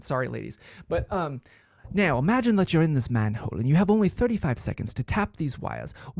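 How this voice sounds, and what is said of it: Put-on British accent. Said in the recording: “I'm gonna do my best British accent.”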